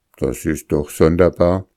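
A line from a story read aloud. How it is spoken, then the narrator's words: Plain. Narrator (German): sagte Holger Nielsen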